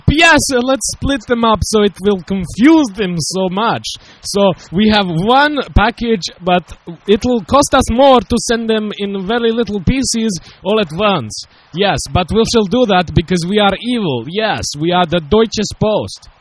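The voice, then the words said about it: Impression of a German postal official. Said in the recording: “that was my little impression”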